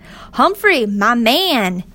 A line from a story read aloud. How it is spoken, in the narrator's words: he yelled